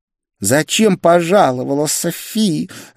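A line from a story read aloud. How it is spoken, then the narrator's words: Angry hiss. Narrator (Russian): зло прошипела блондинка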